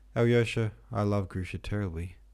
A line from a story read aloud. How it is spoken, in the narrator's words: he said suddenly in a shaking voice full of tears